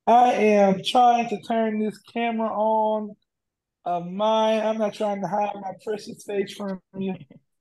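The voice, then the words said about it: Hoarse, half-lost voice. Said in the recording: “my voice is halfway gone ... I still yell”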